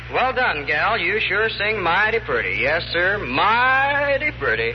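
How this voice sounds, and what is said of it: Put-on American Western cowboy accent. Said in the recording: “what kind of talk is that ... You sound like a fugitive from a rodeo ... learned how to talk Western ... boots and saddles jive”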